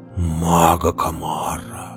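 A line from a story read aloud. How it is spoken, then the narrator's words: Horrified whisper. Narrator (Russian): прошептал Белвар, пришедший в ужас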